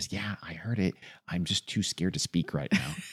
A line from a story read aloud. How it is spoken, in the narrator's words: Elizabeth just sort of in this terrified near whisper says